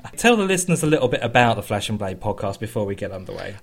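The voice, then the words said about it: Hoarse, failing, congested voice. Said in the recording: “I'm at the point of losing my voice ... You have a sniffle, don't you? ... I have man flu”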